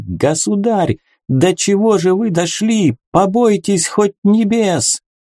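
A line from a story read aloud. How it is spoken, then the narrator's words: Sobbing shout. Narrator (Russian): он, рыдая, прокричал королю на троне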